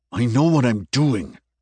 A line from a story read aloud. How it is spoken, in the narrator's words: snapped the man